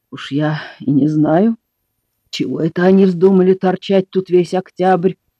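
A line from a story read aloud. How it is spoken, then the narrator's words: Female grumble. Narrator (Russian): проворчала она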